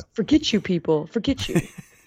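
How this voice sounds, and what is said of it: Put-on New Jersey accent. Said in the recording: “What kind of accent was that, by the way? Was that like a New York? ... Mean Jersey accent? ... They had a little Boston in it.”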